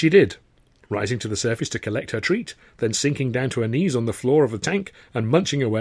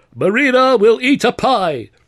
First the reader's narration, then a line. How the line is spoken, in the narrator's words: the gentleman cried